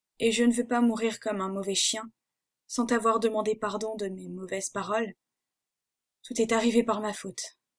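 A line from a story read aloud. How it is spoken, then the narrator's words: Broken, halting voice. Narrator (French): dit-il d'une voix entrecoupée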